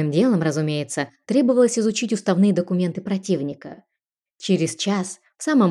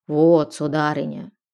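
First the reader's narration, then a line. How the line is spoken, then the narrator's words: Creaky, rasping voice. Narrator (Russian): проскрипел Эразмус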